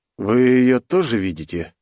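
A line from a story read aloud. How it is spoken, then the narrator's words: Slightly trembling voice. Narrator (Russian): слегка подрагивающим голосом спросил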